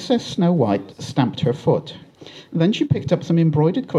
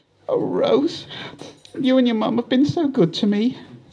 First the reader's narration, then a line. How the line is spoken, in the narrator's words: Snow said between sobs